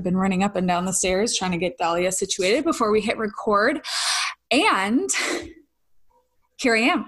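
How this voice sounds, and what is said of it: Slightly out of breath, winded. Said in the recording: “I'm a little out of breath... So if you notice a little windedness”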